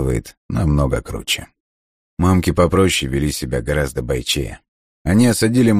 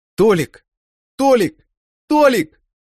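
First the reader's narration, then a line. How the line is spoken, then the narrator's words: Loud shouting mothers. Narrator (Russian): Мамки кричали так громко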